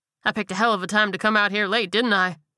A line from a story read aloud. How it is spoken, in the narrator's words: He laughed bitterly